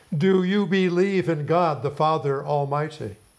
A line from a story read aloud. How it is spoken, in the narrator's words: demands loudly